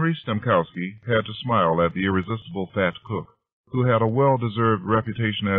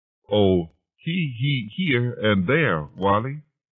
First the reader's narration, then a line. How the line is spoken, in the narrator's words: Harry Stemkowski burst into a nervous stutter